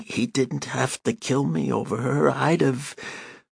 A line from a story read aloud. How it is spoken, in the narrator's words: moaning